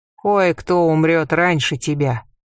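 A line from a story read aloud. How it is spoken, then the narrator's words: Grim prediction. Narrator (Russian): мрачно предсказал Хинет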